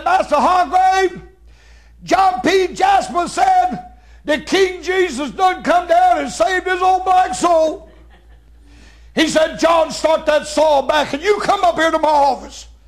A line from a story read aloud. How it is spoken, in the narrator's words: a little old black girl hollered out, said